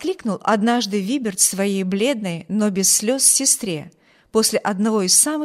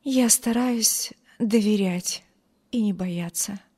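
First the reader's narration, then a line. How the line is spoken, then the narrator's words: Weak voice. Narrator (Russian): слабым голосом ответила бедная девушка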